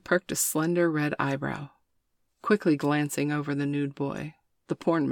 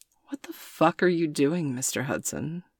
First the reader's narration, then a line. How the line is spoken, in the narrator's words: The woman grinned, her voice as angelic and gentle as her features